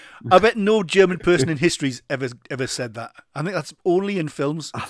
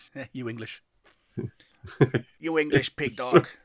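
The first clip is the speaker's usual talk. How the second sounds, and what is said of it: Put-on foreign accent, hint German. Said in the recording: “what accent was that? Were you in Mexico? ... It had a hint of German in, didn't it? ... I thought it was Mexican.”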